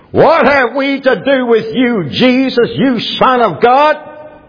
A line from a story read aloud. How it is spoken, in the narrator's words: they cried out, saying